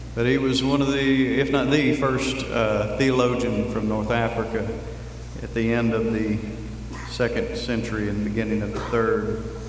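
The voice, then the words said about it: Speaks with a noticeable accent. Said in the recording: “It's hard to pronounce anything with this accent.”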